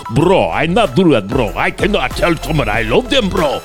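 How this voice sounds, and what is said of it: Put-on Armenian accent. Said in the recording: “some of you Armenian guys ... pretty good imitation”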